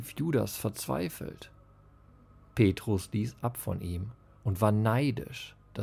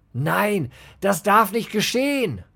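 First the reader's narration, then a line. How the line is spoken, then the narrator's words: Screaming with each hammer blow. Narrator (German): schrie Judas mit jedem Hammerschlag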